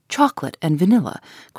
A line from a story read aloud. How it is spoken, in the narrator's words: cried the impenetrable man, cheerfully